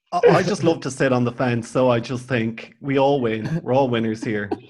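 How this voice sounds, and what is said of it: Irish accent. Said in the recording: “your accent is worth a million words”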